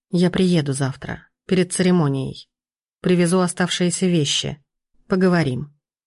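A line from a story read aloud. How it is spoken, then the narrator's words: Soft. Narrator (Russian): сказал он мягко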